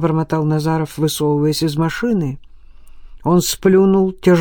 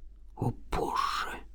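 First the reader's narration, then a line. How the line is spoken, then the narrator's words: Disbelieving whisper. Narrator (Russian): прошептал Назаров, не желая верить тому, что открылось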